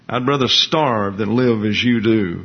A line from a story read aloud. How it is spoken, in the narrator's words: he said